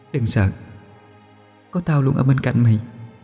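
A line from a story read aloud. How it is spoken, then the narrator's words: Soft murmur. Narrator (Vietnamese): Môi cô khẽ mấp máy nói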